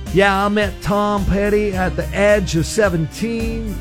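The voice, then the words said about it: Put-on Florida accent. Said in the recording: “Florida accent.”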